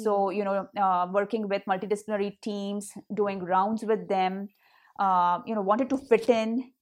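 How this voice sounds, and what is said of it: Hindi accent. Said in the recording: “I had my accent, you know, the Hindi accent that today I very proudly carry.”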